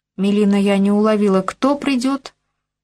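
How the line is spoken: Nearly groaning, dismayed. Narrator (Russian): Чуть не застонала я, отлично понимая, в какую дикую сумму выльется пошив этого самого платья

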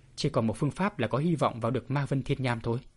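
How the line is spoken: Muttering to himself. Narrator (Vietnamese): Bạch Thiếu Hồng tự lẩm bẩm một mình

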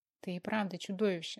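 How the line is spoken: Plain. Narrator (Russian): сказала она

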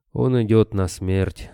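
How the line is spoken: Calm. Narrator (Russian): спокойно произнес Борода

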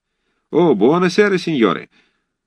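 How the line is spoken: Cheerful chorus. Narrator (Russian): Весело разом отозвались итальянцы

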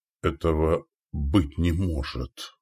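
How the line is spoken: Whispered. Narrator (Russian): прошептал Валибор

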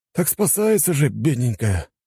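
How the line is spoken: Sighing. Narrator (Russian): вздохнул кто-то из собравшихся

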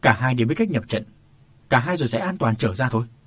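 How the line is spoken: Old man's shout. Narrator (Vietnamese): Có tiếng quát của lão Mã Bình

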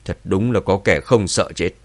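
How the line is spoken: Cold. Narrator (Vietnamese): Lão Cửu lạnh lùng nói

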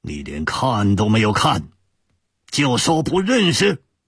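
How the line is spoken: Angry shout. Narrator (Chinese): 杨玄之怒喝一声

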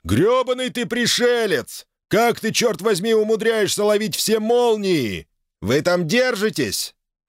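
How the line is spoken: Shouting over the wind. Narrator (Russian): Фокс перекрикнул свист ветра

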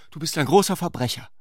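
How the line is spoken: Called out. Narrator (German): rief sie

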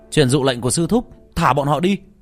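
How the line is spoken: Raised voice. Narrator (Vietnamese): một đệ tử Bắc Đầu Quan cao giọng

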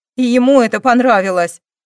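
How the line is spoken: Angry voice. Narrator (Russian): Злым голосом сказала Кристина

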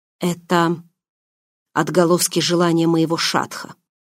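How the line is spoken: Low, expectant voice. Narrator (Russian): ответил низким голосом, и столько в нем было затаенного ожидания

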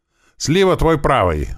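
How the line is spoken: Yell. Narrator (Russian): заорал я

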